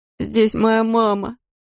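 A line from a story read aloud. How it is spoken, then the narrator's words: Whining. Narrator (Russian): заскулил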